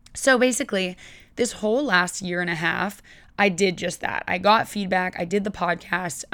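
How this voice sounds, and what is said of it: Scratchy, hoarse, partly lost voice. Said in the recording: “apologize for my voice right now. It seems that I have lost it a little bit. It's been going in and out. ... it's a little bit scratchy and hoarse”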